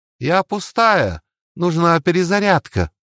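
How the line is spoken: Shouted. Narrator (Russian): закричала Валькирия

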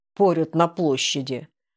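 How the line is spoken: Gloomy, humorless. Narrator (Russian): мрачно ответил безопасник без тени веселости в голосе

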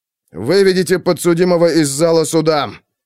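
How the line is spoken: Exasperated bark. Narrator (Russian): рявкнул судья, отчаявшись добиться порядка

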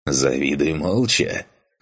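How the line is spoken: Snorting. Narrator (Russian): Хмыкнул танк

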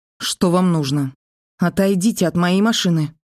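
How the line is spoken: Squeaky voice breaking into sobs. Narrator (Russian): пискнула срывающимся на всхлип голосом

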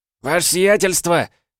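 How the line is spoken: Joyful yell. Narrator (Russian): радостно завопил он на ходу

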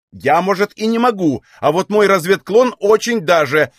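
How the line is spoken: Irritated reply. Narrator (Russian): ответила она раздраженно

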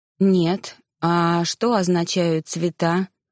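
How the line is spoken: Dull, muffled question. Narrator (Russian): глухо спросила я

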